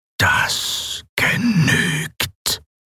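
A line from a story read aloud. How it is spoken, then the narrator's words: Mechanical whisper. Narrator (German): flüsterte die maschinelle Stimme Sylravans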